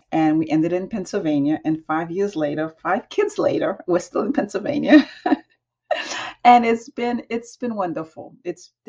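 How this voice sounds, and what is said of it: New York accent. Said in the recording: “I definitely hear New York. You definitely have that New York accent.”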